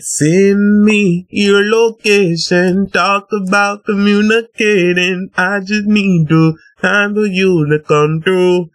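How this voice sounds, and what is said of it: Sung imitation of another person's voice. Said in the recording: “That was a good impression.”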